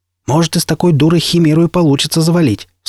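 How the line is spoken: Doubtful shout. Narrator (Russian): с сомнением крикнул Никита

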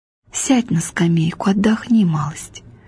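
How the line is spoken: Mother whispering in ear. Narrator (Russian): мать шепнула на ухо

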